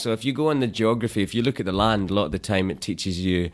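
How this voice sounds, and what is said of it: Scottish accent, lilting rhythm. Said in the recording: “your accent... a nice poetic rhythm to the way that you speak... the Scottish accent... Scotland's all hills and valleys. So that's the accent has that hills and valleys song to it”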